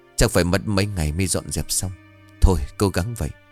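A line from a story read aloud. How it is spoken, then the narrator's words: Sighing. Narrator (Vietnamese): Ông Lộc thở dài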